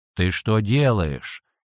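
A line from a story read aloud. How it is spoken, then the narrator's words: Angry. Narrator (Russian): сердито обернулся брат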